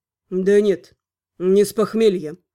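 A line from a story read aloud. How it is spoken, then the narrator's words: Calm reply. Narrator (Russian): спокойно ответил Элвар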